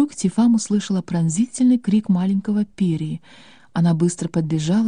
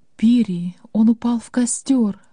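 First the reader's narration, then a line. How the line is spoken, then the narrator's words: Moaning. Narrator (Russian): простонала Рада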